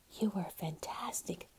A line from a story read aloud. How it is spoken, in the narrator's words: whispered Natalie